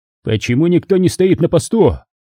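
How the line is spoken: Yelling angrily. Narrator (Russian): заорал

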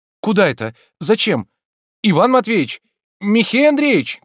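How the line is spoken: Shouting. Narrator (Russian): кричал Обломов

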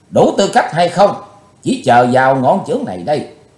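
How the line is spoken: Furious loud roar. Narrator (Vietnamese): Ngọn lửa căm hờn bốc cao ngàn trượng, Chí Tôn quát lớn

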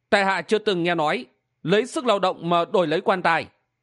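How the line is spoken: Calm, smiling. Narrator (Vietnamese): Hầu Xuân Phong thản nhiên mỉm cười và nói

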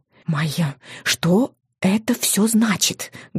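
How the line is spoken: Fervent urgent whisper. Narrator (Russian): горячо зашептала мама

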